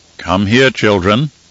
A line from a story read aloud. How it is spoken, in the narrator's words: Harishka said in a solemn tone